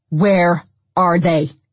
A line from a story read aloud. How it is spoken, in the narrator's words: Dennis shouted, his face white, furious